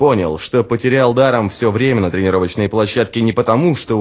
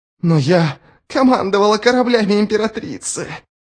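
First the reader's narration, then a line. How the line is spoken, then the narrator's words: Hoarse rasp. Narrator (Russian): прохрипела Шадик Ширрам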